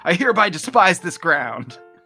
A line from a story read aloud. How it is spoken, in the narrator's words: thinks loudly to himself